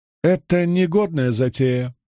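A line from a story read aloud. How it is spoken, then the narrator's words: Displeased woman grumbling. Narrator (Russian): недовольно проворчала третья женщина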